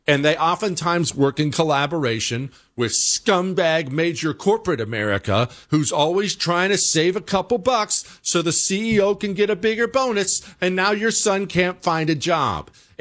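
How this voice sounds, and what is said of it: Angry, heated speech. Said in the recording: “I sound angry about it, I am unbelievably angry about it. I'm glad I sound angry”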